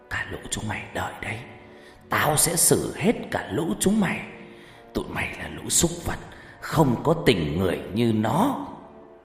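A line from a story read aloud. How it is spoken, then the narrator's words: Hoarse voice. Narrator (Vietnamese): Nó cất giọng khàn khàn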